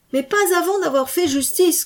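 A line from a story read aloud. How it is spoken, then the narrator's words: Shouted. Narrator (French): cria une voix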